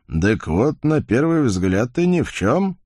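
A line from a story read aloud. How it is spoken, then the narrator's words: Skeptical snort. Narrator (Russian): Черт скептически хмыкнул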